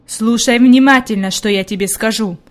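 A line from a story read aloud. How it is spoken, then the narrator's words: Stern. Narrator (Russian): строго сказал он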